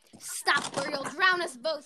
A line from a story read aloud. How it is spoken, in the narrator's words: shouted